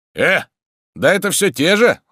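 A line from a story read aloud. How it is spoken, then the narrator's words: Stern question. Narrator (Russian): строго спросил Тарантьев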